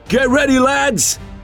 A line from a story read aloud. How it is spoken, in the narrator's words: shouted more than one centurion